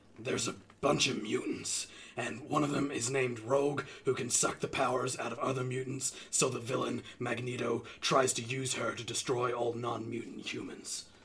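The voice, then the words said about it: Impression of Wolverine. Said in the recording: “Do you want me to do impersonation? ... can you read X-Men as Wolverine?”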